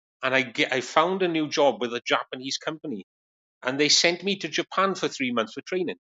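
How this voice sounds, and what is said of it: Welsh accent. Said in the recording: “has a wonderful Welsh accent.”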